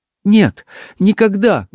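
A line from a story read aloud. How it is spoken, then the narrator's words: Agitated voice. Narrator (Russian): голос ее зазвучал взволнованно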